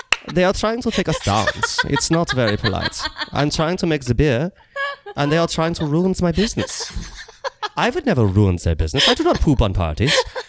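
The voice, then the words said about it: Put-on Danish accent. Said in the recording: “You say that in a more Danish accent? ... Nailed it!”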